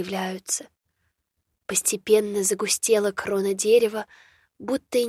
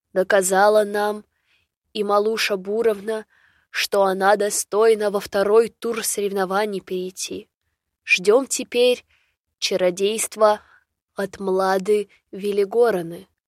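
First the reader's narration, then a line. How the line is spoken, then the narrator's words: Elder's solemn pronouncement. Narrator (Russian): снова торжественно молвил староста Гордей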